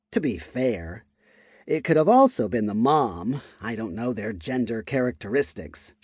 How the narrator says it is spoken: she muttered

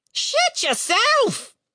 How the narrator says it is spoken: the bird screamed back

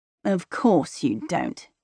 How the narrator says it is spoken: he mutters

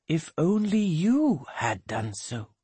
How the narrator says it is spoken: growls Polly, but very quietly

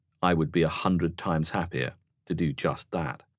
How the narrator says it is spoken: The officer replied sadly

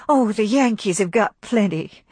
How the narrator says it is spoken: cried Melanie, passionately bitter

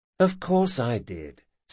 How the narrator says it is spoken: said Locke soothingly

